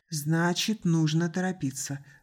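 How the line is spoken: Sighing. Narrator (Russian): вздохнула Стоун

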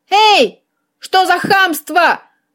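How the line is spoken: Yelling cat. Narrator (Russian): заорал кот

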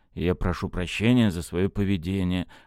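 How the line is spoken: Gloomy mutter. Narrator (Russian): мрачно пробормотал Кольцов

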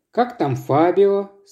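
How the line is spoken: Plain. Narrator (Russian): спросил Вадим

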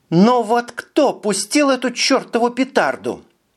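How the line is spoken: Loud and clear. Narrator (Russian): Громко и отчетливо сказала она

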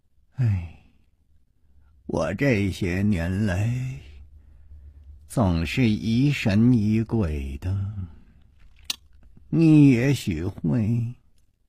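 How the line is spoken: Long sigh. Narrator (Chinese): 长叹了一声说

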